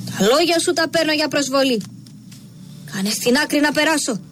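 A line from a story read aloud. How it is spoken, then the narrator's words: Enraged shout. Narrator (Greek): Τραβά με λύσα το σπαθί του και φωνάζει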